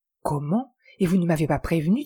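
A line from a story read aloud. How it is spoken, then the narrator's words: Plain. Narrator (French): dit-elle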